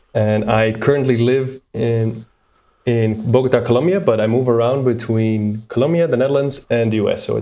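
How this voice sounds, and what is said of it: Dutch accent. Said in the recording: “I am originally from the Netherlands, as my accent cannot hide.”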